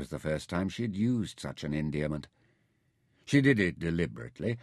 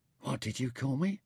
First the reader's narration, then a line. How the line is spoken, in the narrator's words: asked huskily